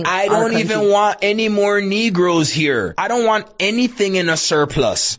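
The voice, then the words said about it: Toronto accent. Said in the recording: “he's got that fucking Toronto accent there”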